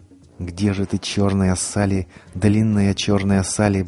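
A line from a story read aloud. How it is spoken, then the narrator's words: Muttering while walking. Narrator (Russian): бормотал он на ходу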